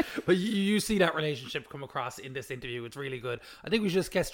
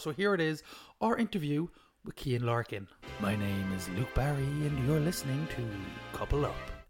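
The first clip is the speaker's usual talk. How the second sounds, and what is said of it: Put-on sexy voice. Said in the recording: “Are you trying to be sexy? ... That is my sexy voice, Kate. Don't undermine the sexiness.”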